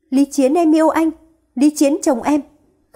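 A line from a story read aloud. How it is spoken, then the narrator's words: Repeated screaming. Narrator (Vietnamese): gào thét, lặp đi lặp lại hai từ Lý Chiến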